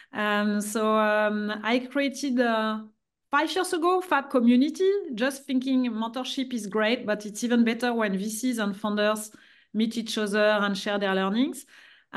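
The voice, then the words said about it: French accent. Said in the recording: “I'm French. You will see my accent.”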